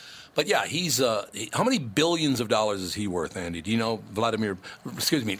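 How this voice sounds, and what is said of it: Usual voice. Nothing is said of it.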